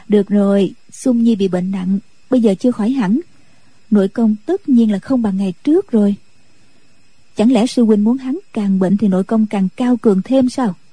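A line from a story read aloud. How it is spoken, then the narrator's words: Smiling. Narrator (Vietnamese): Nhạc Phu Nhân mỉm cười nói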